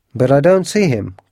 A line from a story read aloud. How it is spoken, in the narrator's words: cried the Colonel